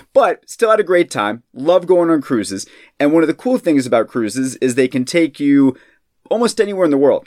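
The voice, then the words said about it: Voice sounds sick. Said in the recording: “a great way to get sick, if you can tell from my voice today”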